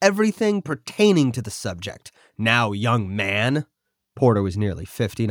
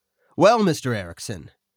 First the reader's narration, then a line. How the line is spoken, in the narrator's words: calmly responded